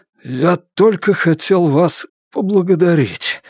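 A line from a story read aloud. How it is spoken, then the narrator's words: Hoarse thief. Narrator (Russian): хрипит вор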